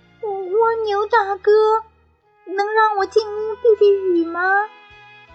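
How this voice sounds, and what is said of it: Trembling, shaky voice. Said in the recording (Chinese): “用颤抖的声音说”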